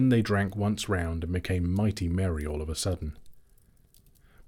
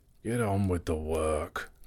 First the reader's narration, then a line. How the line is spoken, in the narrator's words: growled the butler